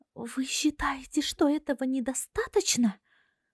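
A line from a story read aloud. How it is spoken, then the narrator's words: Indignant exclamation. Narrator (Russian): Возмущенно воскликнула Руаза, гневно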